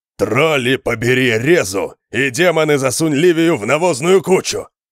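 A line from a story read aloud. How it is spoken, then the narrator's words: Furious growl. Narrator (Russian): рычания Конана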